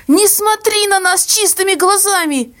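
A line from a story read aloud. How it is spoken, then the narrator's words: Hysterical cry, sobbing. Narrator (Russian): истерически выкрикнула мама и зарыдала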